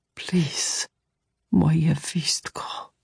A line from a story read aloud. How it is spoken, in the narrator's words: Tomas whispered